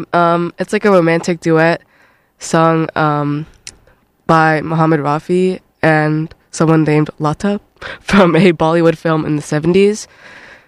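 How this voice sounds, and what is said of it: Sick, rough-sounding voice. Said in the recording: “I'm sick, guys, also. That's why my voice sounds terrible.”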